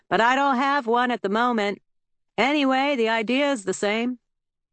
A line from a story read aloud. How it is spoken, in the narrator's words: Trout shouted over the noise